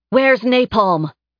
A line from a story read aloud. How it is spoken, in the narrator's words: Karma shouted